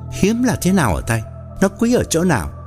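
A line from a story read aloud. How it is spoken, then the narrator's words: Quick reply. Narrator (Vietnamese): anh học trò mau miệng đáp thay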